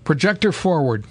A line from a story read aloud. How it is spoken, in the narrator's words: cried the doctor